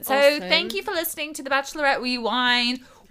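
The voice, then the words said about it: Put-on British accent. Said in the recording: “we're ending in a British accent again ... we can end in a British accent.”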